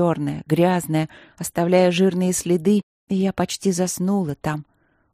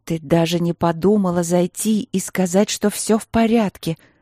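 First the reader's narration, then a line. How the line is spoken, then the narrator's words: Very angry, tearful. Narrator (Russian): Сквозь слезы очень зло произнесла Василина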